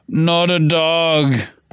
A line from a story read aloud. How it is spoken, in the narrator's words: Ron moaned